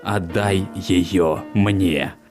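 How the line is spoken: Monstrous growl. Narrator (Russian): прорычало рогатое мурло

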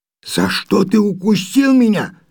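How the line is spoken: Frightened question, lion cub. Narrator (Russian): спросил львенок, испуганно моргая

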